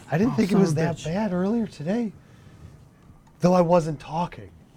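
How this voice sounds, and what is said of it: Hoarse, strained laryngitis-like voice. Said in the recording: “I sound... ridiculous ... Do you have laryngitis?”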